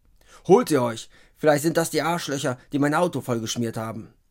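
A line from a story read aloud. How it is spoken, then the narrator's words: Call. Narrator (German): ruft Adolf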